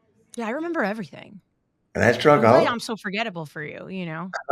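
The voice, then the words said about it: New Jersey accent. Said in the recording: “my Jersey accent. Let's be real; I think it stands out”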